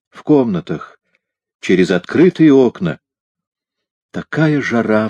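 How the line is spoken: Sighing. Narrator (Russian): вздохнула она

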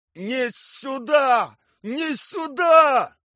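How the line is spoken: Shouting. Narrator (Russian): кричал Анатолий Николаевич

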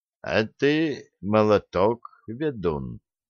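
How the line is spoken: Quiet. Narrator (Russian): тихо добавил Олег

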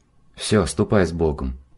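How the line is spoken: Soft whisper. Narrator (Russian): тихо шепнул священник

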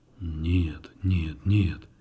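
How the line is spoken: Deep bass voice. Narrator (Russian): пробасил кардинал

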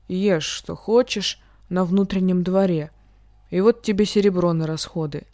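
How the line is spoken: As kindly as possible. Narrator (Russian): говорил, насколько мог ласково

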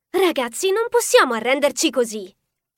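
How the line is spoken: Exclaiming. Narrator (Italian): esclamò Nikki

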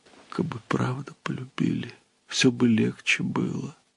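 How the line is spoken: Quiet, holding back tears. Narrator (Russian): Она тихо ответила, смаргивая слезы

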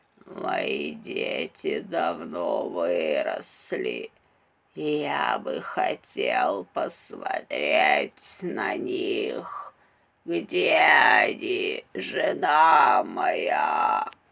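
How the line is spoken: Creaky voice. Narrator (Russian): оно произнесло скрипучим голосом

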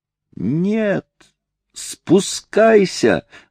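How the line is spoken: Shouted. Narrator (Russian): закричала Трейси

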